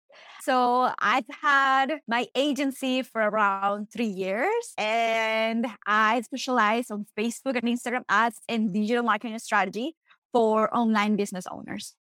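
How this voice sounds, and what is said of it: Colombian Spanish accent. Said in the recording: “if you can hear my accent, I'm from Colombia, South America”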